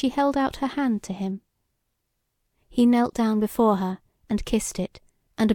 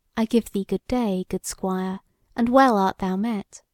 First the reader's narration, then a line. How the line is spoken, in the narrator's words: Her face was full of smiling joy and content, as she spake to him in a kind, caressing voice, and said